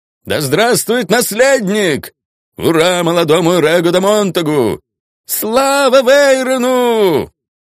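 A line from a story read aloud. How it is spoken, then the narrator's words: Joyful shouting crowd. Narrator (Russian): Они хлопали, кричали и радовались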